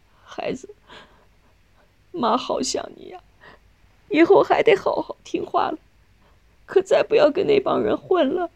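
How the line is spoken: Crying. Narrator (Chinese): 纳琴哭着说

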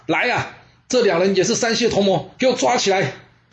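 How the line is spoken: Loud shout. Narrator (Chinese): 胥童大喊

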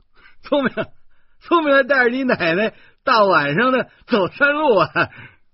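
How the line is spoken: Laughing. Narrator (Chinese): 游客笑着说

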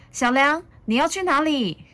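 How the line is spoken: Calling out. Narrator (Chinese): 妈妈叫着

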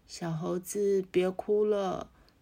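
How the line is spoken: Quietly. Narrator (Chinese): 大象暗暗又说

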